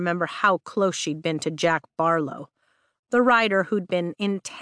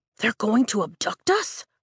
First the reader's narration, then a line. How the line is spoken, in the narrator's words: Nadine gasps, fear lacing her tone